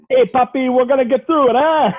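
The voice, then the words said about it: Exaggerated stereotyped foreign accent. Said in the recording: “that was my bad racist accent”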